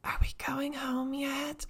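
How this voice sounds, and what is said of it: Whispered line. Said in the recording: “whispering”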